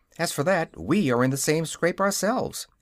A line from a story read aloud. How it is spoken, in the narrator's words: answered Dorothy, cheerfully